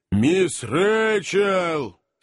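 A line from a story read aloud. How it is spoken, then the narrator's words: Shouted into ear. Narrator (Russian): опасливо, прокричал в ухо старой леди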